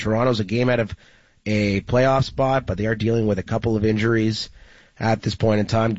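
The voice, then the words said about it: Unwell, under-the-weather voice. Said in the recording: “you're playing hurt. I can hear it in your voice. ... I'm not feeling great today.”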